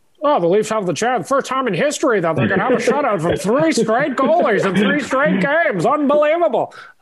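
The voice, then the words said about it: Sports announcer voice. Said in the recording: “that is a great voice you do ... that's my announcer voice”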